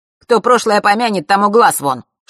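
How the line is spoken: Playful snap. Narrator (Russian): шутливо огрызнулся друг

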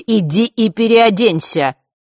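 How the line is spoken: Angry. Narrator (Russian): зло повторила госпожа Азалия

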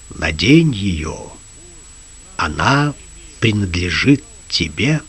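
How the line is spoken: Quiet. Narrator (Russian): тихо сказал

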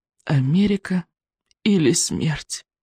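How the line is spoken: Group groaning. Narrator (Russian): простонали Икинг, Рыбьенок и Камикадзе

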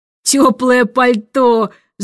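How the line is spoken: Growled. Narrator (Russian): зарычал адмирал

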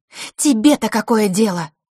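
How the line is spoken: Snapped. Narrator (Russian): огрызнулась Василиса

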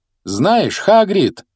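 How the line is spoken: Loud, over noise. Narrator (Russian): громко произнес Гарри, пытаясь заглушить шум тележки

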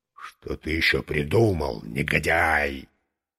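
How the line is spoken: Barely audible rasp through mask. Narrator (Russian): еле слышно прохрипел сквозь маску клоун-богатырь

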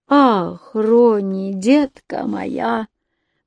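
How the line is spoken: Bitter sigh. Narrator (Russian): почему-то горько вздохнул Матис

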